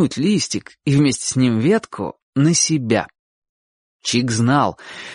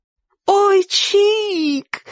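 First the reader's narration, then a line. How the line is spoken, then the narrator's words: Ecstatic yell. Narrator (Russian): восторженно завопила Сонька, увидев, какое богатство им привалило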